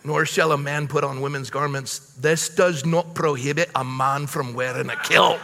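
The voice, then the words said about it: Reads in a put-on accent. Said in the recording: “I'm done now with the accent.”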